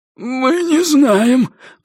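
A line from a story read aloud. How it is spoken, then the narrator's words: Hoarse wheeze. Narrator (Russian): просипел Раз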